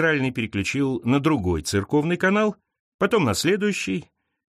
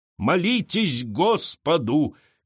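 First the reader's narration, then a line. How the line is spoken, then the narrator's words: Shouting. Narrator (Russian): кричала она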